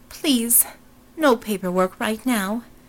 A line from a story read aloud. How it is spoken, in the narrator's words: Fata groaned